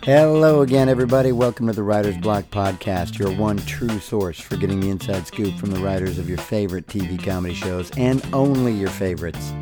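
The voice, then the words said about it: Hoarse, deep raspy voice. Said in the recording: “I lost my voice this weekend. Can you tell? Kind of sounds like I've been replaced by a teenage Barry White.”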